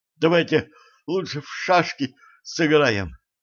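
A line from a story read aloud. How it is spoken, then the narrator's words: Breathless forced words. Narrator (Russian): хватая ртом воздух, выдавила Женька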